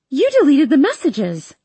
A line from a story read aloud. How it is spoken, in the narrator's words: I shout at him